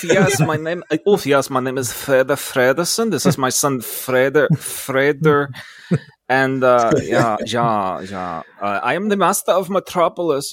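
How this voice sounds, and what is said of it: Put-on bad German accent. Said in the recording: “in a bad German accent”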